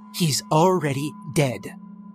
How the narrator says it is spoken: she snapped

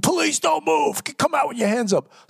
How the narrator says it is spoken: I scream

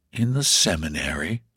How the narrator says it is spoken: he answered in a rather low tone

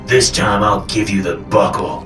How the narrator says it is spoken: Papa growled

